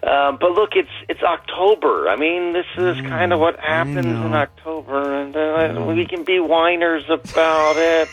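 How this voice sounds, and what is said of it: Imitates another person's voice. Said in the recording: “my best Joe impersonation”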